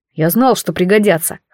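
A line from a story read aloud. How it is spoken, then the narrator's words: Snorted. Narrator (Russian): хмыкнул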